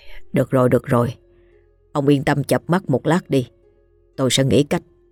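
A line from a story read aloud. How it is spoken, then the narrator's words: Soft reassurance. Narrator (Vietnamese): Ông Hai khẽ trấn an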